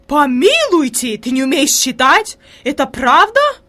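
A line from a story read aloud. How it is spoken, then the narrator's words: Horrified exclamation, lady-in-waiting. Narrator (Russian): воскликнула фрейлин в ужасе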